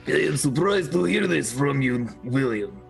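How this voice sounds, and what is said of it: Put-on Russian accent. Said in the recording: “Russian accent.”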